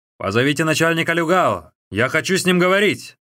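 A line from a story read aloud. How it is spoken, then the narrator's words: Shout. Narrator (Russian): крикнул он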